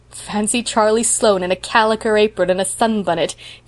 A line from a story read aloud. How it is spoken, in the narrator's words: giggled Priscilla